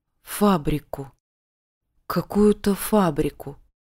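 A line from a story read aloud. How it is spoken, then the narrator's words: Mumbling. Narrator (Russian): забормотал Савелий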